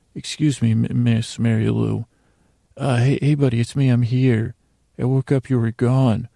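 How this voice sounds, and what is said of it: Whispering. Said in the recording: “Let me just whisper to him.”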